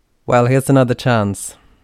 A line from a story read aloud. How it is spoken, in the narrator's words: Taryn said loudly